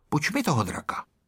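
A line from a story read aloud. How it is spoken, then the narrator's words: Said quietly. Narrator (Czech): pihovatý Ferda a řekl tiše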